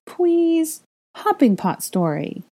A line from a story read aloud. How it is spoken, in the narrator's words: Aurelian pleaded